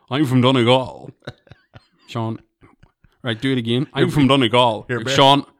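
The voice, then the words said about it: Imitates a Scottish-accented voice. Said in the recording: “You're very fucking Scotty... Will you fucking just do it in an Irish accent?”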